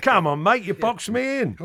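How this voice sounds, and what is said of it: Put-on Cockney accent. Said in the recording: “nice Cockney accent”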